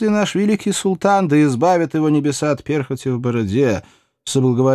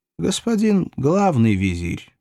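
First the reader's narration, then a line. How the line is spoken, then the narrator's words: Gentle correction. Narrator (Russian): мягко поправил его толстяк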